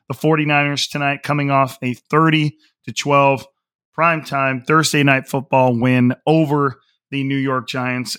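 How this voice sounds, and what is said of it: Slightly hoarse voice. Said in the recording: “my voice is still a little hoarse”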